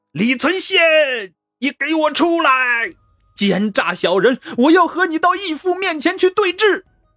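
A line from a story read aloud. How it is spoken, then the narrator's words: Furious roaring. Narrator (Chinese): 他愤怒如狂…边战边吼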